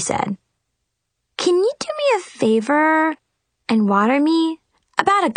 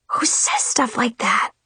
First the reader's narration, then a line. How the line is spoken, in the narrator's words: I whispered